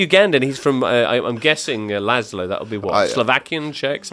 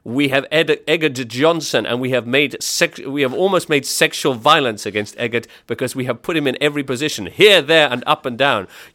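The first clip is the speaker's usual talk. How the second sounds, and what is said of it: Put-on foreign accent. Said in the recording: “What accent is that? ... a kind of doing a Ugandan accent.”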